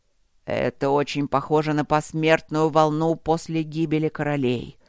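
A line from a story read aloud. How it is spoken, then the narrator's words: Growling. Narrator (Russian): рычаще сказал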